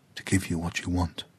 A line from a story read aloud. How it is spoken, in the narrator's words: Kua Ai whispered to the tree